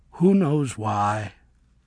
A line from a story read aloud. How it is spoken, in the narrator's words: said fondly